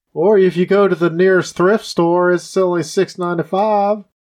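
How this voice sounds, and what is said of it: Put-on country accent. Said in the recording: “Why are you talking in a country accent?”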